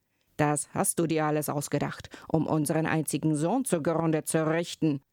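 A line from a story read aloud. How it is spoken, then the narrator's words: Exclaiming. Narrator (German): rief er aus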